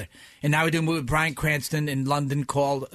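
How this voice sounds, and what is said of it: New York accent. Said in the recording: “I got a New York accent all of a sudden”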